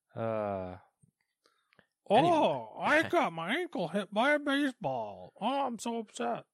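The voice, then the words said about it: Imitates another person's voice. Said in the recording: “just because it's Bregman doesn't mean you have to do his voice”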